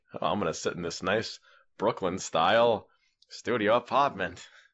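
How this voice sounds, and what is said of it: Boston accent. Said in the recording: “I got a Boston accent now.”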